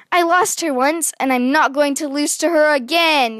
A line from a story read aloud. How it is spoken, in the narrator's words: yelled